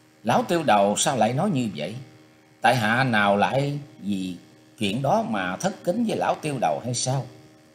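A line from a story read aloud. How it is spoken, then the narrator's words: Smiling, polite. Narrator (Vietnamese): Chu Ngọc Kỳ mỉm cười nói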